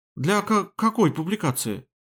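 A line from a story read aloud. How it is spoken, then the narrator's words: Surprised stammer. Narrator (Russian): Таня даже заикаться начала от неожиданности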